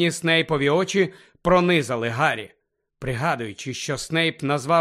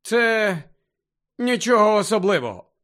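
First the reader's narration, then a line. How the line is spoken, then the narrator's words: Grumbled. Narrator (Ukrainian): буркнув Гаррі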